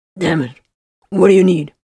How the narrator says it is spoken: he suddenly growled

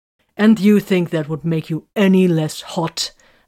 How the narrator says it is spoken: Arik snapped

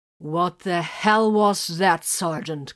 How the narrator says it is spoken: Grimfang growled

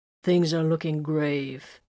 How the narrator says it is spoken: Viren agreed in a sepulchral tone

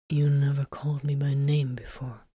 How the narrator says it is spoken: murmured in surprise

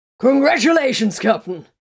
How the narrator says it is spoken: shouted cheerfully

